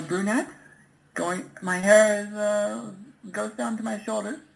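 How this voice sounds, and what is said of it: Man's unconvincing girl voice. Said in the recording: “It doesn't even sound like a girl... does an okay girl voice in other calls, but in this one, it just sounds like a dude”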